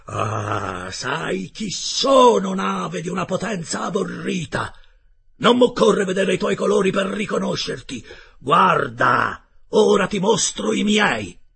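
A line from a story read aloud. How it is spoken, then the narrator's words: Thundering yell. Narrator (Italian): urlò con voce tonante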